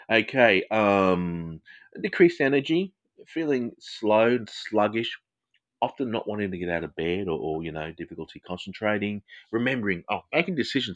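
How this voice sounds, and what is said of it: Australian English accent. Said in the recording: “Sorry for my accent. It's Australian English.”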